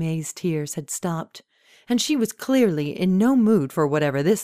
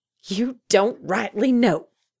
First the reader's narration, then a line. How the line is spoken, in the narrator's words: Ada Mae barked in disbelief